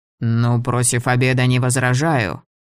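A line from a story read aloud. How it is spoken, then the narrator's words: Grumbling. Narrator (Russian): пробурчал Лэмб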